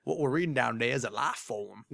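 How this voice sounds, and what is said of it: Bad imitation Southern accent, Idris Elba. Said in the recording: “his horrible southern accent in Prometheus ... that was a bad southern accent on my part”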